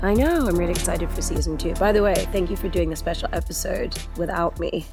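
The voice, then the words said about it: Voice slightly affected, congested. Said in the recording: “with a slight cold ... My voice is recovering”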